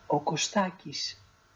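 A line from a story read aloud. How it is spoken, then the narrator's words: Very quiet reply. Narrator (Greek): η Μανταλένα αποκρίθηκε σιγά, μα πολύ σιγά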